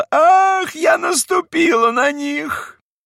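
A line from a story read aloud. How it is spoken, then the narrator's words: Sudden scream. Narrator (Russian): И вдруг закричала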